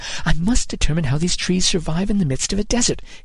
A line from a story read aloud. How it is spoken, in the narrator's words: he muttered